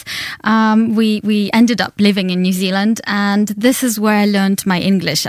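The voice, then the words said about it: Russian accent in English. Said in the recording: “This wonderful accent that you have ... it comes, I guess, originally from Russia, from Siberia.”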